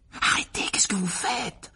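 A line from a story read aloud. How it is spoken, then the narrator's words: Whispered. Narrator (French): chuchota Harry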